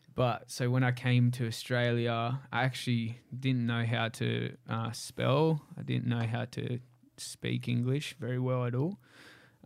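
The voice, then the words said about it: Australian accent. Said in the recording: “I've got an Aussie accent”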